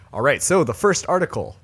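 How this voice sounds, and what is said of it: Deep radio announcer voice. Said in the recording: “radio voice ready... down in this register now... This is my Brady impression”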